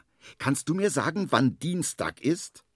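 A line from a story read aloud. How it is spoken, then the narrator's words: Calling out. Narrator (German): ruft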